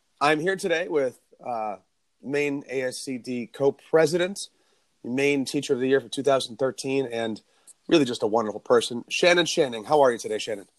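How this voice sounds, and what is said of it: Sick-sounding voice. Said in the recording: “I have this bronchitis that's been with me for like 3 weeks now, which is why my voice sounds the way it is”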